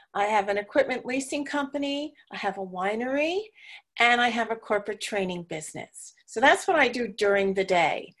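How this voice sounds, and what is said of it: New York accent. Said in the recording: “I am originally from New York, so some of you will pick up my accent for sure”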